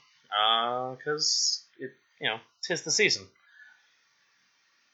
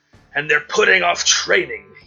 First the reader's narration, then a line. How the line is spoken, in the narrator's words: he snarled